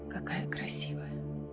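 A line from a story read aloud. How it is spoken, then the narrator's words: Whispered. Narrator (Russian): прошептал он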